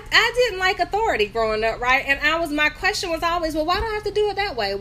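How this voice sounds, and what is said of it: North Carolina accent. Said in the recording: “I'm from North Carolina, in case you hear my accent.”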